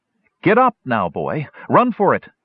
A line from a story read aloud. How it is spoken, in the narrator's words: Hildy cried